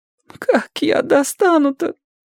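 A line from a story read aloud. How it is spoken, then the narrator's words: Frightened tearful crying. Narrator (Russian): Он уже не всхлипывал, а плакал, и был похож на перепуганного третьеклассника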